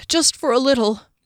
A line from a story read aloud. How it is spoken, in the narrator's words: Fennel moaned